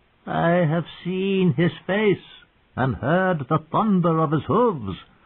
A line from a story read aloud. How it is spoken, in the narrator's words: proclaimed in a thin, wavery voice